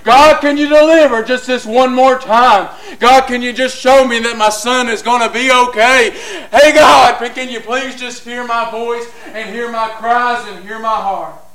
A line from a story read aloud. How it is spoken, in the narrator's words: she just cried out